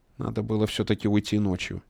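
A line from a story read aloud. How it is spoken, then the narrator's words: Quiet. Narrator (Russian): тихо сказал Королёв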